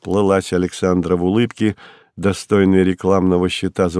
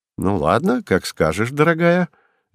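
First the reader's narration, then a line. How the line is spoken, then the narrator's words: Cheerful agreement. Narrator (Russian): весело согласился Вадим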